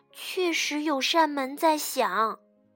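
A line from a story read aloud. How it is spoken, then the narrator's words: Quiet whisper. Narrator (Chinese): 他小声地说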